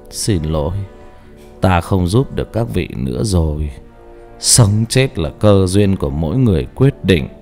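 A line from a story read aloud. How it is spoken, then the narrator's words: Monk, soft. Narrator (Vietnamese): Vị sư khẽ nói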